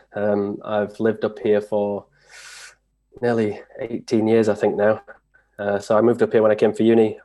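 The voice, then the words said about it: English accent, not Scottish. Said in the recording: “you can probably tell by the accent that I'm not Scottish”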